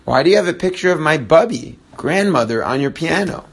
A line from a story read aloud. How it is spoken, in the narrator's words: In a tight and strained voice, Miriam asked